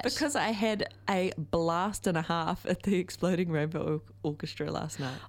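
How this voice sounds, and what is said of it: Slightly hoarse voice. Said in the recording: “Feeling a little bit hoarse.”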